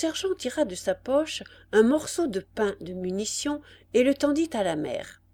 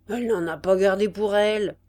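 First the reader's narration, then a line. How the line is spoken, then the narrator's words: Grumbling. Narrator (French): grommela le sergent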